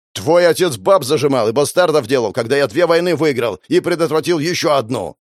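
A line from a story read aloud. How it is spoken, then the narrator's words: Barked. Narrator (Russian): рявкнул Георгий Максимович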